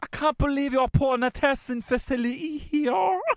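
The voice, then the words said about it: Posh Irish-tinged English accent. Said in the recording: “What is the West Brit accent? ... it would be a posh. The Queen's English, but I'm also uh, Irish.”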